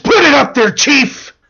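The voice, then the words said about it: Bad impression of another person. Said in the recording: “That was a horrible Jack Nicholson impersonation that I did.”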